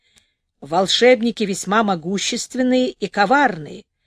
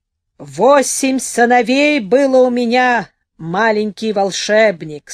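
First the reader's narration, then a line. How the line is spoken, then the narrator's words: Mighty, soul-withering old dragon voice. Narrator (Russian): сказал старый дракон иссушающим душу могучим голосом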